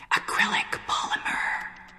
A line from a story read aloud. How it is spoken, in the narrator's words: whispering